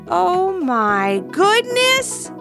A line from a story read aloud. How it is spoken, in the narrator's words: shouted Levi